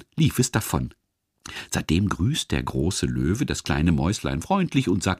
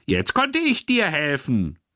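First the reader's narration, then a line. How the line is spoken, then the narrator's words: Little mouse squeaking. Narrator (German): piepste das Mäuschen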